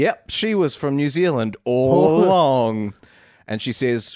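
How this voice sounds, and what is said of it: Usual voice. Nothing is said of it.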